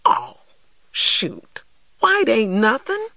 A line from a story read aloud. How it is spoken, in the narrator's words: I exclaimed